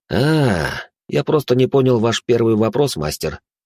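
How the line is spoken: Sigh. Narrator (Russian): вздохнул я

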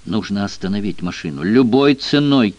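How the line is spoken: Insistent exclamation. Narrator (Russian): настойчиво воскликнул Джефф

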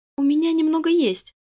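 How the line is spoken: Uncertain voice. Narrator (Russian): неуверенно звучит голос Насти

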